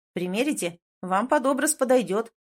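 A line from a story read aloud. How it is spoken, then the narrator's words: Plain. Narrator (Russian): сказал парень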